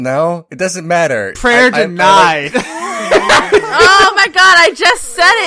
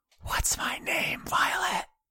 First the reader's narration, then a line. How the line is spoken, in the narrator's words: You hear a voice on the wind whisper